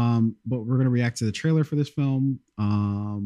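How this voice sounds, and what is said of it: Usual voice. Nothing is said of it.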